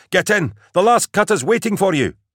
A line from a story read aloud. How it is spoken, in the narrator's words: cried the boy